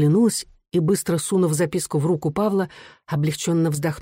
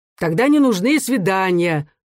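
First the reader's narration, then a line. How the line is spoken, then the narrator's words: Irritated. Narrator (Russian): раздраженно заметил чиновник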